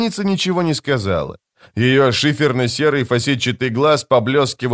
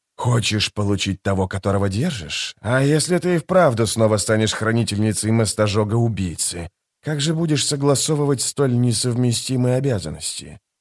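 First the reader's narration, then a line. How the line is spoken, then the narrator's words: Plain. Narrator (Russian): Демоница ответила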